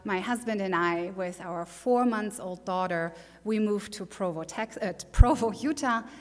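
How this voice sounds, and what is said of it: German accent. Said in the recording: “she pronounces those words that I'm familiar with so weirdly. She's talking with an accent. ... I'm from Germany ... yes, it's German”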